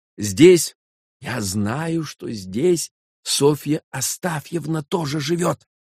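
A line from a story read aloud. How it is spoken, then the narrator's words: Sympathetic whisper. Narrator (Russian): проговорил молодой человек шепотом и даже с каким-то соболезнованием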